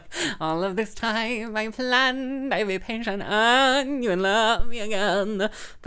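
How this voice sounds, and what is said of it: Imitates another person's singing voice. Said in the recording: “my impression of him doing Patti LuPone. That's my impression of his impression. It's not a good impression”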